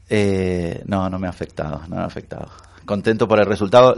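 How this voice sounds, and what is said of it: Argentine Spanish accent. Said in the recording (Spanish): “Era argentino, soy de Buenos Aires ... No se te quita el acento, es imposible que se quite.”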